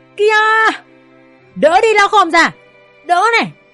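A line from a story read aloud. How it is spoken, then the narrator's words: Loud shout. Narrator (Vietnamese): Toàn hét lớn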